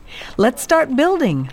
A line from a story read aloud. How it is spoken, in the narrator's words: cried the people